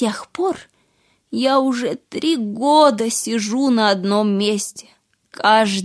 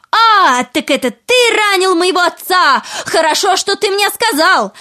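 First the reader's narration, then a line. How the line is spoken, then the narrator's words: Shouting wife. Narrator (Russian): жена закричала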